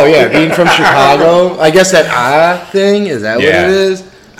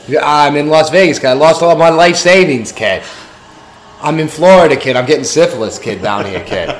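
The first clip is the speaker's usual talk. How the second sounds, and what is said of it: Put-on Boston accent. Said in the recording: “the Boston accent applies to anywhere”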